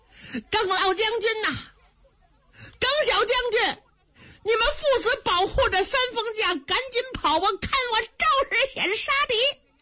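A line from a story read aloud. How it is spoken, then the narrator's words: Shouting while running. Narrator (Chinese): 一边跑，他一边还喊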